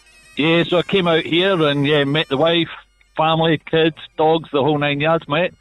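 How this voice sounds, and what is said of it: Thick accent. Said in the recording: “the accent is still so thick... what a thick accent.”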